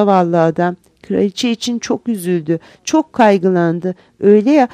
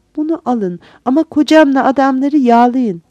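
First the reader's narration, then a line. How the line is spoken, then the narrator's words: Pleading. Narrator (Turkish): diye yalvardı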